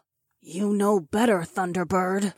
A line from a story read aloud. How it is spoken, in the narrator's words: Fila growled